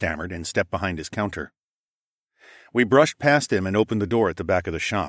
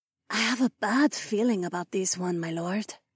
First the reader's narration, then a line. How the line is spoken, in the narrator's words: Isabella whispered